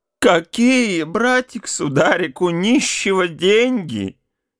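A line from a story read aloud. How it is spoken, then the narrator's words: Whining. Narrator (Russian): Не говорил, а словно хныкал он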